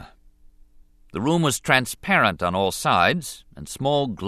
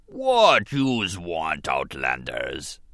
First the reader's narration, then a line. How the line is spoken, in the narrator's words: Bas Nass rumbled at them